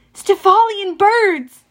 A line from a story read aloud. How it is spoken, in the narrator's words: Annabeth yelled